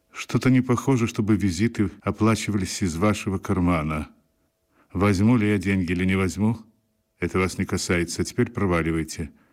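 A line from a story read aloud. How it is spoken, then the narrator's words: Calm. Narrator (Russian): сказал Равик спокойно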